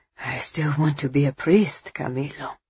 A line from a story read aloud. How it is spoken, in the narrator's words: he whispered, and his chest ached at the admission, as if he were betraying Eva